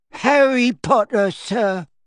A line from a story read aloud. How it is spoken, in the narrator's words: squeaked the elf, trembling from head to foot